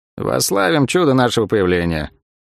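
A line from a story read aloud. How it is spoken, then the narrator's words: Dry comment. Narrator (Russian): сухо прокомментировал Лавиани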